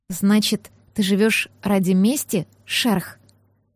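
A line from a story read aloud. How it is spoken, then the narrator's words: Quiet question. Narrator (Russian): тихо спросила я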